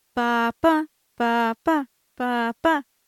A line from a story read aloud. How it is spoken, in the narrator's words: repeat in a muffled voice with the woman's hand lightly over my mouth